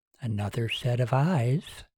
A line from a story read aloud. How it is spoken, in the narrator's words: she whispered